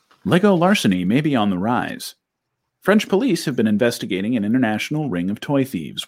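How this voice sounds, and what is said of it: Mock NPR radio announcer voice. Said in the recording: “I'll bust out my NPR voice”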